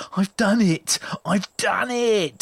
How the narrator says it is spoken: he screamed with joy

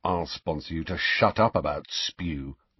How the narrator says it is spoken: Ron muttered irritably, but only so Harry could hear him

